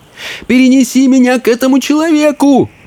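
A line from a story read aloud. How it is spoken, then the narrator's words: Shouted. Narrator (Russian): закричал он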